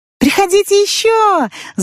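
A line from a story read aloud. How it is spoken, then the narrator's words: Shouted by several. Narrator (Russian): закричали они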